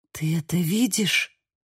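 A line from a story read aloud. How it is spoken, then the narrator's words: Breathy whisper into water. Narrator (Russian): выдохнула я в воду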